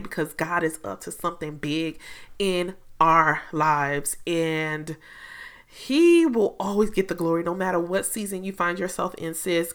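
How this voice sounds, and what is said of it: Excited, upbeat voice. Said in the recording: “I'm super excited. If you can hear it in my voice, I'm excited”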